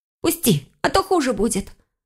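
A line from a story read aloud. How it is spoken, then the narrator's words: Angry hiss, fox. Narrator (Russian): зло прошипела лиса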